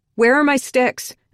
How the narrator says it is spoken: I shouted down the hallway

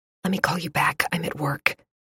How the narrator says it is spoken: I whispered

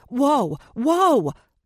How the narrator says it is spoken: Gentry cried

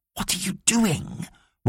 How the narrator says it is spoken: whispered Mitzi

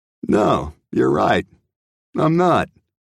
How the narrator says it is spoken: Slash said and chuckled

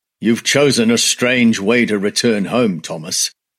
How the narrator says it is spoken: he said

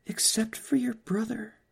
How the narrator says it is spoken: said softly

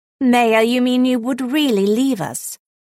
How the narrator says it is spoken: Howler asked teasingly

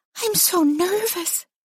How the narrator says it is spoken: Vera whispered

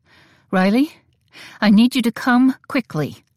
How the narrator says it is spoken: Theodosia said in a tight voice

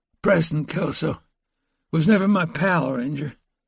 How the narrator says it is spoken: the wounded man, Curtis Rudabell, replied in a pained and halting voice

